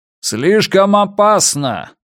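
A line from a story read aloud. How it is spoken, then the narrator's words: Shouting from behind. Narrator (Russian): прокричал позади них диджей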